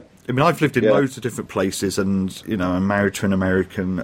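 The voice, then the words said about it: Fairly neutral received pronunciation accent. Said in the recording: “fairly neutral kind of received pronunciation”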